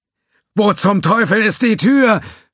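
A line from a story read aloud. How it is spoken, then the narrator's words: Voice screaming. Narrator (German): schrie eine Stimme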